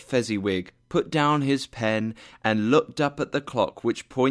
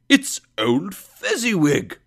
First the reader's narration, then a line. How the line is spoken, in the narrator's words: Scrooge cried in great amazement